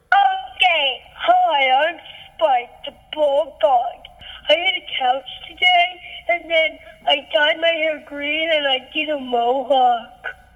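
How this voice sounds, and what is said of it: Child voicing a bulldog character. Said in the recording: “do a voice of one of the dogs in the story”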